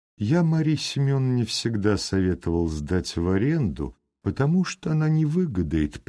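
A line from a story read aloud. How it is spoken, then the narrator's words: Pleasant voice, landowner. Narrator (Russian): приятным голосом говорил помещик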